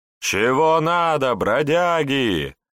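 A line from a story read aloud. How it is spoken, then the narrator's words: Brazen townspeople yelling. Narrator (Russian): вопили уверенные в своей безнаказанности горожане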